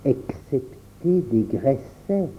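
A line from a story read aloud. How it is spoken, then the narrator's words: Said quietly. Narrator (French): dit Henri tout bas à Pierre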